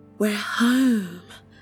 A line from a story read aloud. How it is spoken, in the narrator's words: Rose whispered